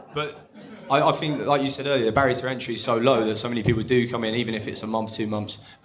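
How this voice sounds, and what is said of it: Essex accent. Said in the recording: “they live in Essex. I don't know if you can tell by the accent”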